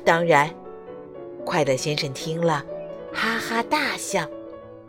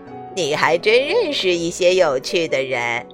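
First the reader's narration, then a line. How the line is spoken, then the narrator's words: Laughing. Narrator (Chinese): 贪吃先生笑着对快乐先生说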